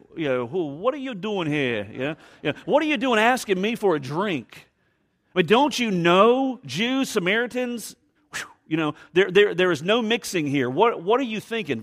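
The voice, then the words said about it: Put-on New York accent. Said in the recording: “I wonder if she had a New York accent.”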